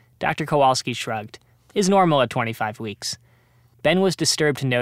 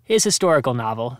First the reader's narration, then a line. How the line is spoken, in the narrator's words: said Dr